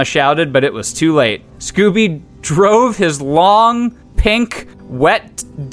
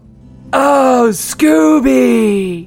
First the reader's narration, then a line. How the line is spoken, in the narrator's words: She groaned with pleasure